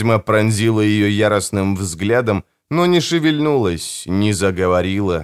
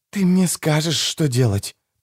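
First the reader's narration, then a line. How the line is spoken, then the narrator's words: Whispered. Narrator (Russian): прошептала Николетта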